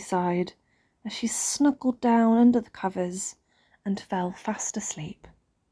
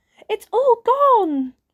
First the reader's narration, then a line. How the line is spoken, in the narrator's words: cried Baby Bear